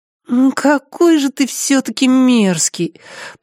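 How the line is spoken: Moaning. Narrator (Russian): простонала она

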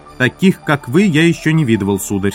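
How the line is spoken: Plain. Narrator (Russian): сказал Джефферс

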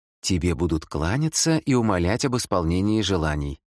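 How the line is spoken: Plain. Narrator (Russian): ответила Алис

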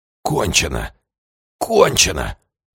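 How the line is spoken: Wheezing. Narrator (Russian): сипел фон Теофельс

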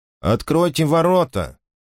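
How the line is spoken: Pointedly casual. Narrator (Russian): сказал он подчеркнуто будничным тоном

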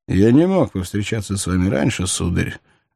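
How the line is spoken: Respectful tone. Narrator (Russian): ответил Хайреддин почтительным тоном

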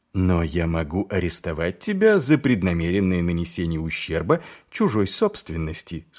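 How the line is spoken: Plain. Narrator (Russian): сказал Маркоу

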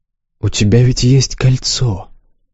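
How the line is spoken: Gentle reminder. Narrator (Russian): мягко напомнил Развьяр

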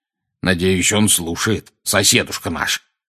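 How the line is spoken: Growled. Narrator (Russian): прорычал дядя Вернон

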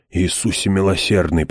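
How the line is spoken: Moan. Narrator (Russian): простонал Хойт

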